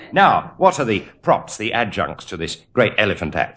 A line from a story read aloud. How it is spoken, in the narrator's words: said Cecil